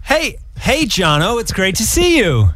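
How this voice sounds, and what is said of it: Put-on American accent. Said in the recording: “I need to do an American accent ... Say, hey, Jono, it's great to see you in American accent.”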